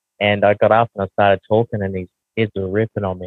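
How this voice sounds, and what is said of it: Heavy twangy Australian accent. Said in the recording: “how heavy my Aussie accent is ... And it's very me twangy.”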